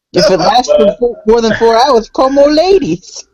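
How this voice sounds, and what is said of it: Imitates another person's voice. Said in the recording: “It sounded like you were doing a Ron Funches impression”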